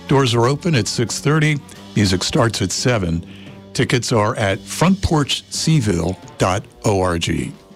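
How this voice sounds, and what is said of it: Polished professional radio announcer voice. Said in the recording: “That was pretty darn professional. ... Good radio voice. ... that was a heck of a radio voice. ... Too professional for us.”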